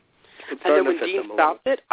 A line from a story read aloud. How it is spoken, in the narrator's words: I giggled